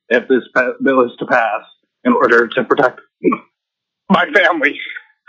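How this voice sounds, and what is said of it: Emotional voice. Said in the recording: “I'm just a little bit emotional.”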